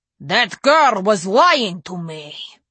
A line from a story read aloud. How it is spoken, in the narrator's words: he growled